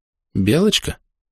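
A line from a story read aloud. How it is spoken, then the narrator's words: Uncertain. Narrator (Russian): неуверенно сказал я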